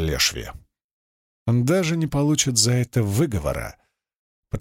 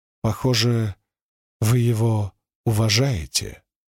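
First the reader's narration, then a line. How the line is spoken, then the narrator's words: Plain. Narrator (Russian): сказала Венли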